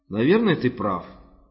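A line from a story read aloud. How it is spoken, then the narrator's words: Plain. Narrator (Russian): ответил Руис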